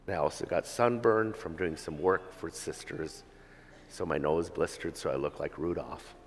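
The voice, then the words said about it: Congested voice from a cold. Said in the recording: “part of my parting gifts from there is a cold I received, as you can hear in my voice, from being cold and taking cold showers”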